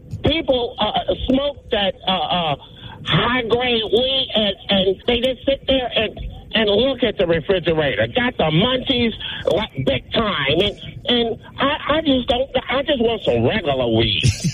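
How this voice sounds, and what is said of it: Imitates another person's voice. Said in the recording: “your best Cat Williams impression ... He nailed it.”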